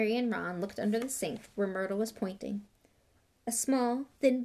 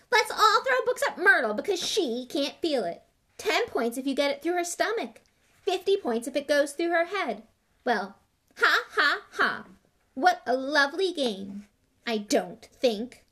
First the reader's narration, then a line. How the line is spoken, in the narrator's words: Myrtle shrieked